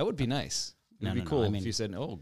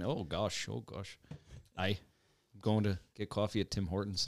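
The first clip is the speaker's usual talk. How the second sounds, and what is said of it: Put-on Canadian accent. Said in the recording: “Nearly Canadian accent.”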